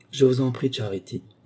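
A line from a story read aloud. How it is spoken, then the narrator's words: Soft. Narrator (French): dit doucement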